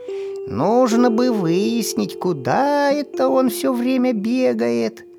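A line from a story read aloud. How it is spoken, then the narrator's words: Heavy sigh, to herself. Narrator (Russian): Тяжело вздохнув, сама себе сказала бабушка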